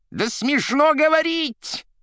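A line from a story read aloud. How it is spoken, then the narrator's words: Shrill shout. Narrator (Russian): пронзительно закричал Римский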